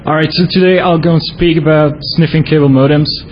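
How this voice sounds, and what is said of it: Belgian accent in English. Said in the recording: “I come from Belgium, so sorry about the accent sometimes. It's going to be a bit lousy.”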